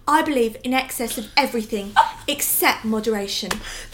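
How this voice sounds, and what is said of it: Imitated English-sounding accent. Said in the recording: “Can you do her accent? ... That was amazing. ... Dorit's accent ... It's like it morphs into different things as she speaks. ... I see it as an English accent.”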